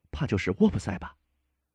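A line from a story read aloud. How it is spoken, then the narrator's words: Low voice. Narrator (Chinese): 赫伯特对我低声说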